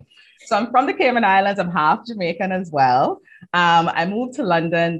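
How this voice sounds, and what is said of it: Caribbean accent. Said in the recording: “will your accent not disappear? ... it's beautiful, your accent ... Her accent is incredible”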